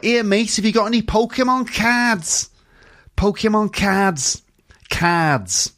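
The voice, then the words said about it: Liverpool accent with widened ah. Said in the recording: “it's true in Liverpool as well ... But sometimes those sounds become wider, like in ah, like a kind of ah sound ... I think that sounds really Welsh, that one ... Sounds kind of Welsh to me”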